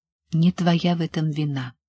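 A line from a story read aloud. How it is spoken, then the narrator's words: Quiet. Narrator (Russian): тихо сказала она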